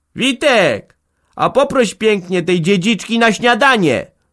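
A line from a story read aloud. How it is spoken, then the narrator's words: Screamed again. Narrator (Polish): wrzasnęła znowu Hanka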